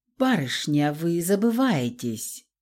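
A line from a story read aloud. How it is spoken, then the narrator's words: Contemptuous, through teeth. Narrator (Russian): процедил Феликс, презрительно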